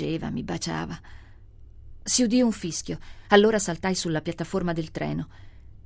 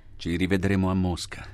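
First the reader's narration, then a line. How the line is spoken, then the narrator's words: Plain. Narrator (Italian): disse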